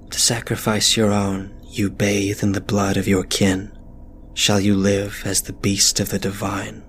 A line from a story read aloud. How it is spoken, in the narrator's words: says the witch